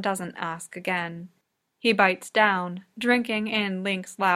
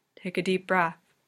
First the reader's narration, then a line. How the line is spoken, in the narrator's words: he murmurs